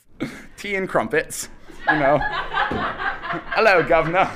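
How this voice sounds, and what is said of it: Poor put-on British accent. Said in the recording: “I'm absolutely terrible at doing a British accent.”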